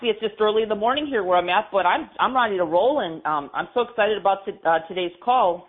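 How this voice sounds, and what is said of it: Slightly raspy voice. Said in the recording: “I sound a little raspy”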